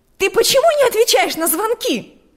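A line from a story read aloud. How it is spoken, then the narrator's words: Shouting. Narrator (Russian): закричала она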